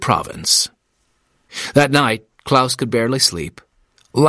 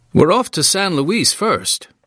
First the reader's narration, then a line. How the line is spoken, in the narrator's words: Alan said cheerfully